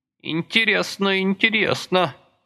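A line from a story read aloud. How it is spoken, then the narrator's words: Creaky, stiff tenor. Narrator (Russian): проскрипел несколько замороженный тенорог Сократыча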